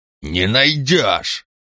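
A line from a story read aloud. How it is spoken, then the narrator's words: Barked. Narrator (Russian): рявкнул Ланкао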